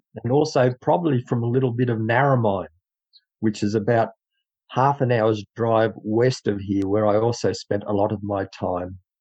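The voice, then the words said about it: Australian accent. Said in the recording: “Where did you get your awesome accent? ... came from Dubbo, New South Wales, Australia. This is how we speak over here ... So that's my awesome accent”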